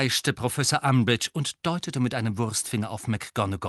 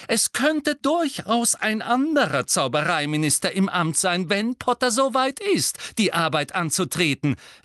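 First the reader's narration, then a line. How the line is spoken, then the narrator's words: Calling out. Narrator (German): rief Professor McGonagall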